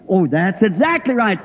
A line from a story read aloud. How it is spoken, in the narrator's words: said the young